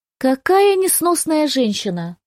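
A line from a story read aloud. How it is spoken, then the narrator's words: Bursting into laughter. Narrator (Russian): Констанция расхохоталась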